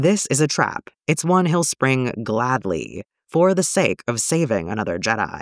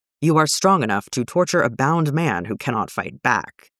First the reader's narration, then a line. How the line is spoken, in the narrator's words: he says coldly